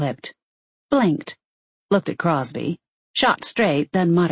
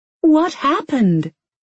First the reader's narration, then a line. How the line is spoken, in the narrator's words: Susan near on screeched